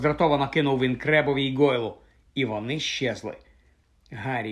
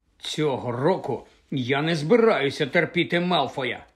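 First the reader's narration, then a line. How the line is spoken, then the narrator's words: Angry. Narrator (Ukrainian): сказав він сердито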